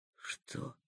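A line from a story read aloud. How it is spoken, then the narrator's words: Whispered question. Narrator (Russian): Почему-то шепотом спросил Ростислав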